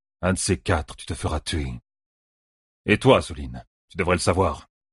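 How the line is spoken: Growled. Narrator (French): grogna Elias

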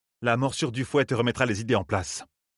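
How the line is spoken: Icy tone. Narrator (French): continua Anat d'un ton glacial

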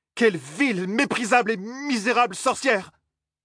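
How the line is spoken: Shouting. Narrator (French): cria-t-elle

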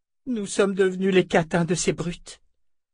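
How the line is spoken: Moaning. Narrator (French): gémit Cherna

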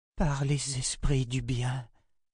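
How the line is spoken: Murmured. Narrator (French): murmura-t-elle

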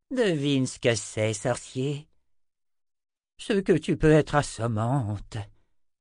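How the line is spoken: Sighed. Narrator (French): soupira Zed

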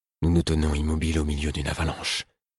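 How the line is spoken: Murmured. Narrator (French): murmurai-je

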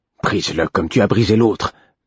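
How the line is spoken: Angry murmur. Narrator (French): murmurait-il d'un ton coléreux

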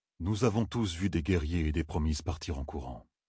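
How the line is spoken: Almost nonchalant. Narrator (French): dit-il d'un ton presque nonchalant

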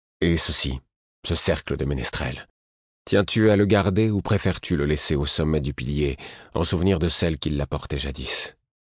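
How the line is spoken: Soft reply. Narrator (French): répondit doucement

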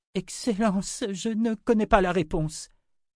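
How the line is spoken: Moaning. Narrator (French): gémit Ulyssia

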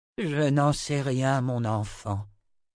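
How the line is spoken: Sighing sorcerer. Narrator (French): soupira le premier sorcier

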